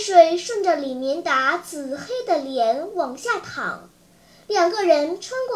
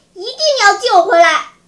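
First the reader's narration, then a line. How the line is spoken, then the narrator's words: Shouting while straining hard. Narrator (Chinese): 李明达一面狠命地蹬着自行车，一边喊叫说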